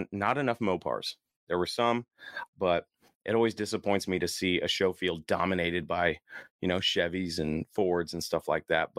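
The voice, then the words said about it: Hoarse, tired, worn-out voice. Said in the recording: “my voice is shot ... my voice is shot. I'm tired.”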